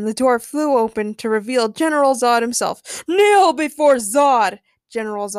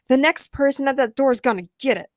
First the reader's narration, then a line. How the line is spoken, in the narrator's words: Jane growled